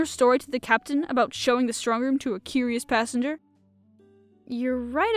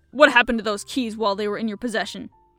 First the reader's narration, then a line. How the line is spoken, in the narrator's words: He snapped